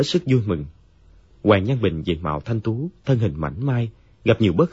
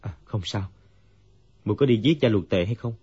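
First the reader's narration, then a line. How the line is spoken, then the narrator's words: Dazed, sighing. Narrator (Vietnamese): Dương Quá như tỉnh mộng, thở dài nói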